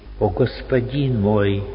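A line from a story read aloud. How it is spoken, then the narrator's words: Sudden deep sigh. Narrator (Russian): вдруг вздохнул глубоко Араим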